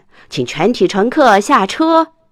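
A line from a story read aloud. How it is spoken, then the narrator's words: Shouting. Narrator (Chinese): 司机喊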